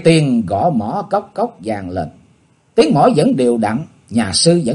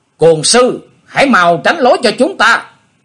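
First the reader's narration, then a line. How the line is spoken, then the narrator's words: Shouting. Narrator (Vietnamese): một cao thủ của Dương Gia Trang hét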